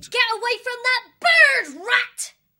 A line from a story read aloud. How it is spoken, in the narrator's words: Tyria as she shouted